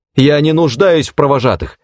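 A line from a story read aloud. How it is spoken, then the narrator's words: Angry shout. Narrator (Russian): гневно выкрикнула она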